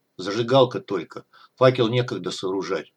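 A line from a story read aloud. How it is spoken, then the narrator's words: Grumbled, suppressing tremor. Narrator (Russian): пробурчал Трэш, вынимая предательскую дрожь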